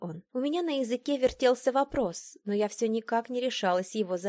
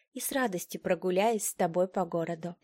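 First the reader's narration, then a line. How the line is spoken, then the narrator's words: Quiet. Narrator (Russian): тихо проговорила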